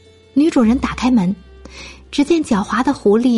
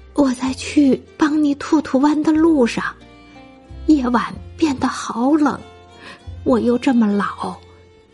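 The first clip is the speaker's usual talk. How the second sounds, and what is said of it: Weak, feeble, listless voice. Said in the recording (Chinese): “弯着腰，用有气无力的声音说道”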